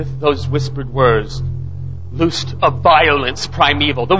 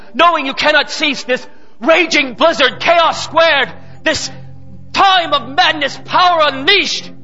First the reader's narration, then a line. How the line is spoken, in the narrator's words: cried out a man